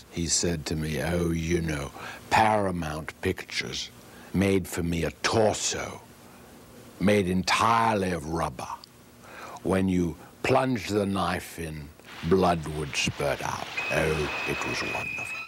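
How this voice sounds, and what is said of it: Alfred Hitchcock impression. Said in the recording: “doing the director of Psycho, Alfred Hitchcock”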